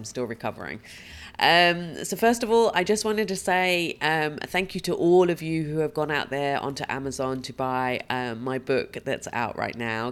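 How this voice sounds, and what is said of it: Husky, croaky voice from a cold. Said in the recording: “As you may hear from my voice, I have a sexy, huskier tone today because I've had that awful cold flu thing ... if every so often I croak”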